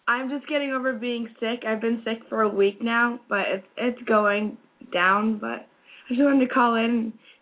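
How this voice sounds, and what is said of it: Hoarse, weak voice. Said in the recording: “my voice is really bad ... my sexy voice ... my voice goes in and out ... I could immediately hear it in your voice”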